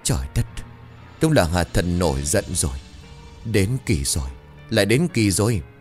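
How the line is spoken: Trembling old man. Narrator (Vietnamese): Một lão già run rẩy

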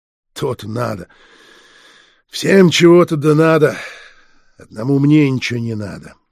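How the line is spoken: Grumbling barman. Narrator (Russian): ворчал буфетчик

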